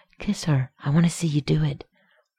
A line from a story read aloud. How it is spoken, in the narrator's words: Rodney said again in a low, desperate voice